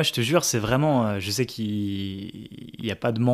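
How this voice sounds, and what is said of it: Usual voice. Nothing is said of it.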